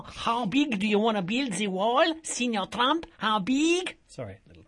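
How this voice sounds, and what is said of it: Put-on Speedy Gonzales-style Mexican accent. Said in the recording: “Might need to work on your accent ... I watched all those Speedy Gonzales cartoons as a child”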